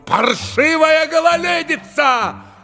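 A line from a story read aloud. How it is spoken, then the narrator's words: Shouting. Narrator (Russian): закричал столяр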